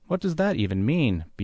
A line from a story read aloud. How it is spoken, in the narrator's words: BLE asked in a panicky tone